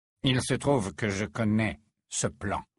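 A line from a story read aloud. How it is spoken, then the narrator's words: Low voice. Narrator (French): déclara-t-il à voix basse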